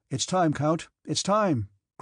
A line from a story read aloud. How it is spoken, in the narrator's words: cried the adjutant